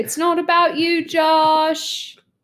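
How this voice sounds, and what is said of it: Shouted put-on British accent. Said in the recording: “I don't know why I shout that in a British accent.”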